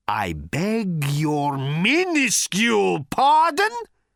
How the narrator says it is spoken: roared Thor

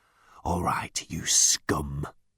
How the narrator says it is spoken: growled

